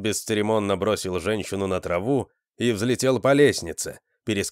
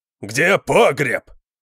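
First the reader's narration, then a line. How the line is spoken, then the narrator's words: Roaring. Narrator (Russian): проревел Конан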